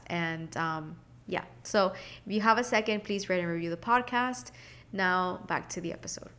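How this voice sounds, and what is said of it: Congested, sick-sounding voice. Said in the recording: “So, I am sick. I don't know if you can hear it in my voice... I'm very congested in the mornings”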